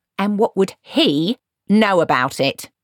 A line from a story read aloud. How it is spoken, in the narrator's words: sneered Granny